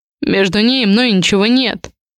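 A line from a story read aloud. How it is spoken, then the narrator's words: Curt and rough. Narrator (Russian): бросаю грубо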